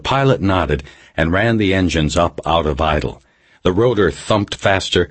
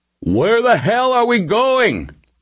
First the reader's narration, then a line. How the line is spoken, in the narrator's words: Webster shouted